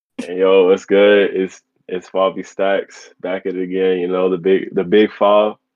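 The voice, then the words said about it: Deliberately deepened voice. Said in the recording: “Every time you come in with try to get the deep voice.”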